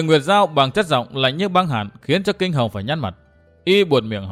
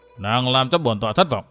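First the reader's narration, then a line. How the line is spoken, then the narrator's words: Very cold remark. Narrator (Vietnamese): Kinh Hồng buông luôn một câu thật lạnh lùng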